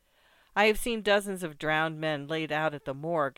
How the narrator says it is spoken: answered the sub-prefect

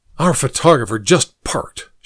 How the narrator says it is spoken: she hissed

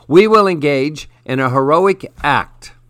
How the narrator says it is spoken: roared

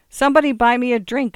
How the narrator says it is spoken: shouted

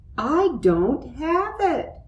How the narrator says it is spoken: cried Muffy

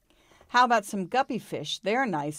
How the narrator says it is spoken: said Petey's mother

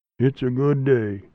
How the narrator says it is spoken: he said

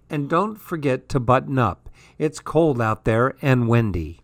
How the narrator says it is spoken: mother called in a weak voice

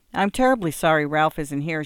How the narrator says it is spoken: said

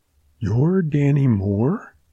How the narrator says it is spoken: she faltered

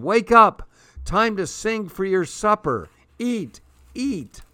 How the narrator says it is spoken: shouting

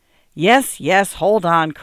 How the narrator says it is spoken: cried John impatiently

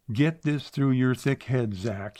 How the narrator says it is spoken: he roared

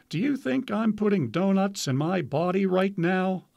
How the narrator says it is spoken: Freeman replied, laughing

